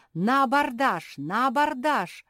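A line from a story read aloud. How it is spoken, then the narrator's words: Man's exclamation. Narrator (Russian): воскликнул король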